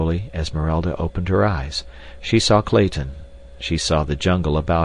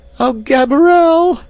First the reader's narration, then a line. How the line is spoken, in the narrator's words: she screamed